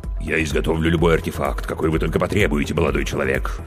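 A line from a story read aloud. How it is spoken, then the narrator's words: Deep bass voice. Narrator (Russian): пробасила трагедия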